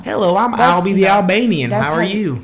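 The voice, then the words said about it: Put-on country accent. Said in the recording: “That is a country accent. ... That was just my voice for him.”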